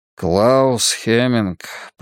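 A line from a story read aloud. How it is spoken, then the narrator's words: Muttering. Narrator (Russian): пробормотал Мунк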